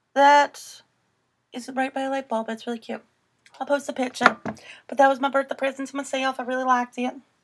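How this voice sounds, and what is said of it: Put-on Southern accent. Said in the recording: “That's a nice accent you got going on right there ... I'd say that's pretty good Southern accent you got going on”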